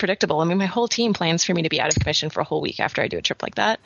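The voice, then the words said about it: Hoarse, fading voice. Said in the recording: “I'm losing my voice now”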